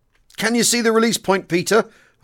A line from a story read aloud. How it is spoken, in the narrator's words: I cried